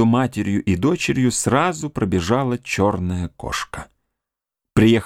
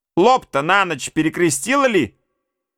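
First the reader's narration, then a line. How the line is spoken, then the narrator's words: Shouted through a door. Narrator (Russian): крикнула ей матушка через дверь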